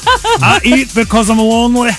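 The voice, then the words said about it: Scottish accent, Fat Bastard impression. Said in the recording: “I've mastered my Scottish accent because of Mike Myers.”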